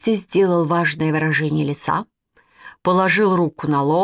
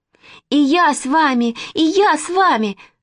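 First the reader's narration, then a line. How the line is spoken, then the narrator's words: Shouted. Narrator (Russian): закричала Нинка Кукушкина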